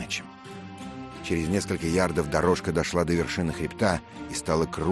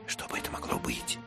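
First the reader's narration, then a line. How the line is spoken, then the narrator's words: Whisper. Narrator (Russian): шепнул Мэтчем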